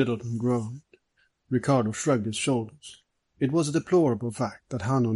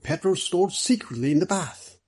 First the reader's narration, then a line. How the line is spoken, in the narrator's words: Middleton excitedly